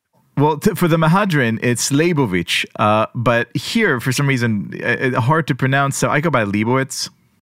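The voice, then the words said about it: Slight non-American accent. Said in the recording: “that little accent over there, that implies that you are not American born”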